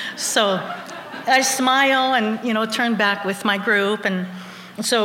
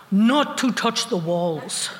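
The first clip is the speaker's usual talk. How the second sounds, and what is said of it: Thick foreign accent. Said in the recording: “in a thick accent”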